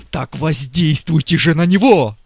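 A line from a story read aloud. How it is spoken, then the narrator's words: Fervent heated exclamation. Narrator (Russian): воскликнул губернатор с таким жаром, как будто гипофиз был его смертельным врагом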